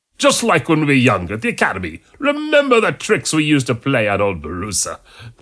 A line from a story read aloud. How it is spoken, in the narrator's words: The monk laughed